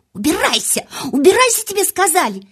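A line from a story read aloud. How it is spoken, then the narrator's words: Shrieking. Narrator (Russian): завизжала она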